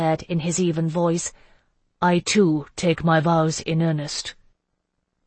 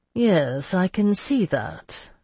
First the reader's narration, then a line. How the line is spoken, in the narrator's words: Lambert said dryly